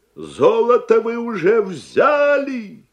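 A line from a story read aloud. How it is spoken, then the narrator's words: Angry shout. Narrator (Russian): крикнул дядя Сандро сердито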